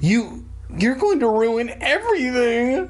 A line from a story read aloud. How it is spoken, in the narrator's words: I screamed at him